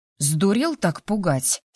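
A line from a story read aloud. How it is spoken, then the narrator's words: Angry snap. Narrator (Russian): сердито огрызнулась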